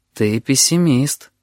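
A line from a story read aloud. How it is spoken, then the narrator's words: Sad. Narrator (Russian): грустно сказал слепой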